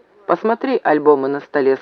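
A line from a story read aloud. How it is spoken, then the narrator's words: Plain. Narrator (Russian): сказал Максим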